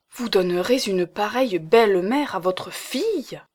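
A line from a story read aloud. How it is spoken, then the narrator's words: Exclaimed. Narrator (French): s'écria madame Hulot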